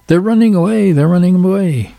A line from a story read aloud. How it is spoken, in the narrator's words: Billy Goat Leg Field Marshal Brigadier General Commander Sergeant … shouted to the old Chinese man